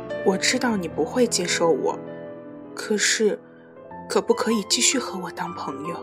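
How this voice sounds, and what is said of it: Voice trailing off quieter. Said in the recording (Chinese): “越说越小声”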